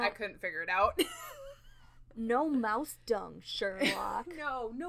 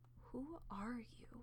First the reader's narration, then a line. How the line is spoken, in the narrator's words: he whispered